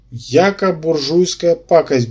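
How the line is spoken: Disdainful, through clenched teeth. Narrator (Russian): брезгливо процедил Щутченко

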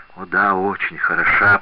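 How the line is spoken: Muttered. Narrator (Russian): пробормотал Асканио

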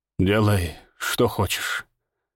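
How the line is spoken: Forced out, hoarse voice. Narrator (Russian): выдавил он севшим голосом

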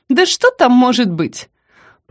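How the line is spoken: Confident, mocking. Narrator (Russian): Прозвучало настолько уверенно и насмешливо

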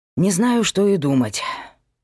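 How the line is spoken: Sighing. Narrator (Russian): вздохнул Павел

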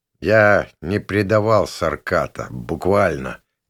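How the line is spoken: Dull muffled voice. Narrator (Russian): глухо проговорил я

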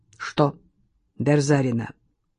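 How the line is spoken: Curt question. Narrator (Russian): отрывисто спросил он

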